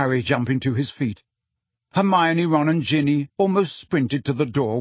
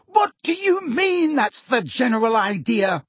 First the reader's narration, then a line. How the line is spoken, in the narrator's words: Weasley shriek